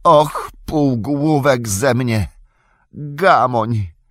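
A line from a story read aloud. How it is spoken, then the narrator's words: Groan. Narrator (Polish): jęknął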